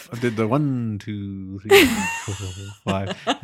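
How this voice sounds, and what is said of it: Soothing monotone counting. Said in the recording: “Me at my monotone best, my soothing monotone best.”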